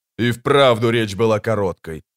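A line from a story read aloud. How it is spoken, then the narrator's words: Snort. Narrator (Russian): фыркнул Микула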